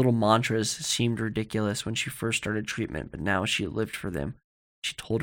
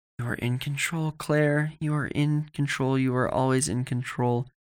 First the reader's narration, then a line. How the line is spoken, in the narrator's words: She breathed and whispered